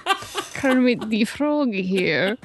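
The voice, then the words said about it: Muppet character voice, Constantine impression. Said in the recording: “You kind of actually sound like Tina Fey's character a little bit, too... They had a very similar accent”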